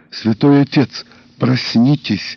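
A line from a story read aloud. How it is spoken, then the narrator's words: Whisper. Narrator (Russian): прошептала я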